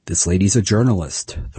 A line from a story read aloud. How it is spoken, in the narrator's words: the mother said